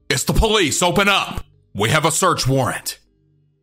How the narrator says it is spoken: They shout

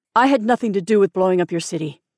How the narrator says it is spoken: the man said

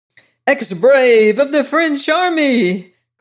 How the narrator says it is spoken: cried I in a mad state of exhilaration

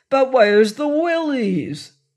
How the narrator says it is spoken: cried Job

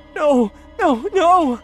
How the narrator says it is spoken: cried

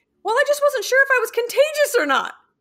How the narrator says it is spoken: My daughter shouted

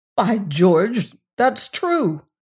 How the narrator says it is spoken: he cried

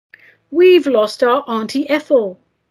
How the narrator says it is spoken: a family cried out in despair

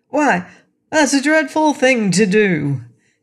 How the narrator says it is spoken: exclaimed the Scarecrow

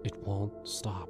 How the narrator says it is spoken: she whispered

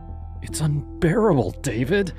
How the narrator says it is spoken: said, her voice trembling

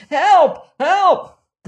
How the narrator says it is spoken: a man shouting wildly

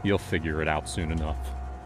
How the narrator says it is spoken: I said, my voice cold, almost distant

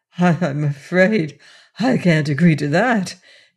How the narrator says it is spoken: replied with a laugh

